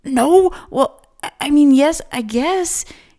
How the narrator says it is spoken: he stammered

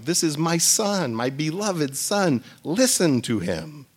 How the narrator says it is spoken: God is again so pleased with Jesus, he blurts out

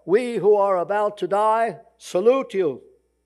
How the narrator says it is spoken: called out

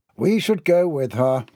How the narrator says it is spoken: Neville grumbled

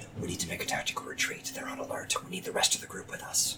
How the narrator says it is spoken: whisper

